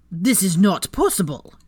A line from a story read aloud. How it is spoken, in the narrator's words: Shacklebolt boomed